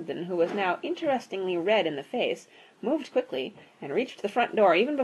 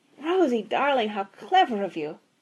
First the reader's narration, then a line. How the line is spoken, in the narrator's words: exclaimed Mrs